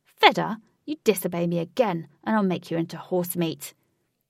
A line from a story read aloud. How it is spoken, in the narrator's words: Huey angrily snapped